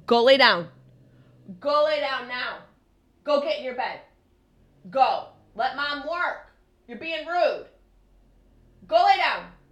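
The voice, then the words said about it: Yelling. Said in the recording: “I'm yelling into the microphone”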